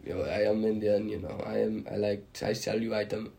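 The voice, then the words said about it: Weak attempt at Indian accent. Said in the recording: “I can't do a very good Indian accent, but they have such high”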